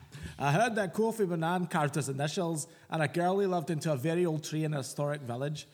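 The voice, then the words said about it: Put-on Scottish accent. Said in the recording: “I think we should have read this in a Scottish accent ... This is my fucking offensive God. Scottish accent now.”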